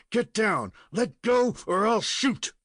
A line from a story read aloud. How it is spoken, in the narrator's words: he fairly shouted